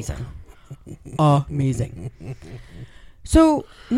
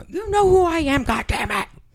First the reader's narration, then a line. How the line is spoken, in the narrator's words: Al screams into the phone